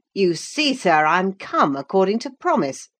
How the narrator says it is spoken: exclaimed, assuming the cheerful

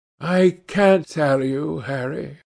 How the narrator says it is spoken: he answered sadly

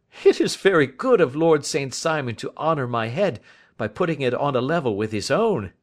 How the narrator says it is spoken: said Sherlock Holmes, laughing

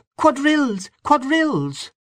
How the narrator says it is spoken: A red-faced young woman, excitedly clapping her hands and crying

